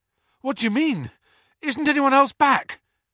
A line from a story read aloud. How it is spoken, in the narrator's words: Harry panted